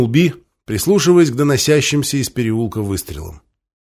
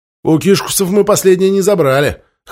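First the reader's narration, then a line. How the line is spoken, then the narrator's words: Snorting. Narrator (Russian): хмыкнул Хвостун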